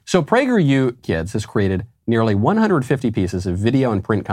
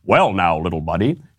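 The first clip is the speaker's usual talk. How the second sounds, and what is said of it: Imitates another person's voice. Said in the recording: “in my Dennis Prager voice”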